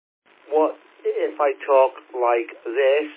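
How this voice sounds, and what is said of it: Slow, carefully enunciated speech. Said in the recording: “It's almost like you eliminated your Welsh accent, because it's like, yeah, perfect English that was... People might say I'm talking too slow.”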